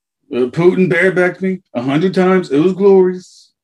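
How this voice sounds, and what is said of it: Bad Donald Trump impression. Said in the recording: “terrible Trump impersonation ... I've missed your impersonation so much”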